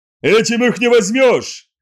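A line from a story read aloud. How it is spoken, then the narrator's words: Shouting. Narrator (Russian): закричал Риман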